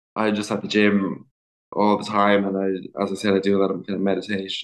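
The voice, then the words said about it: Irish accent. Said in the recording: “the Irish accent, it can sound like warrior”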